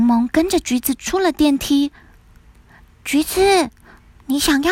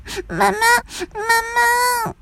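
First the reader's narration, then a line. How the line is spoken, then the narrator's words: Crying child. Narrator (Chinese): 年纪最小的橘子一边哭了出来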